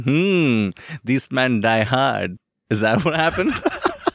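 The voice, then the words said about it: Mock German henchman accent. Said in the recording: “That was my Hans Gruber's henchman accent ... So that's what you think German gangsters talk like.”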